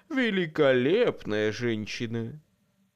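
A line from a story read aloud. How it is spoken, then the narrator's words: Sighing. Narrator (Russian): вздохнул Боб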